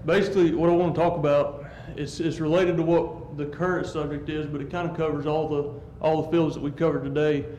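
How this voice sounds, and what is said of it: Southern US accent. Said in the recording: “You got the Georgia guy's accent.”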